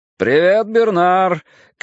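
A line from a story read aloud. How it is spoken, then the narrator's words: Shout through partition. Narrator (Russian): крикнул из-за разделявшей салон и кабину плексигласовой перегородки водитель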